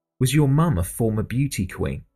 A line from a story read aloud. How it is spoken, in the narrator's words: asked Elgrod